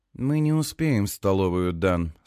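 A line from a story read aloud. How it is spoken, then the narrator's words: Calm. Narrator (Russian): спокойно говорит она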